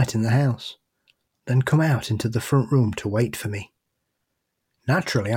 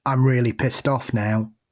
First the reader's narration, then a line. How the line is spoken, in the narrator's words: in a very creepy voice with an English accent